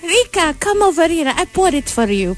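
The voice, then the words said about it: Put-on Russian accent. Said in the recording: “parang Russian accent kasi siya... smooth transition ng Russian accent”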